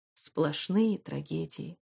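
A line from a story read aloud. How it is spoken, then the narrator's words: Sighing. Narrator (Russian): вздохнул Лео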